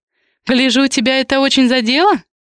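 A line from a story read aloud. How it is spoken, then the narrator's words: Laughing. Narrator (Russian): рассмеялась Ри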